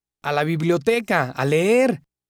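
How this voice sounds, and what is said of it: Shouting. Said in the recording (Spanish): “¿Y por qué gritas?”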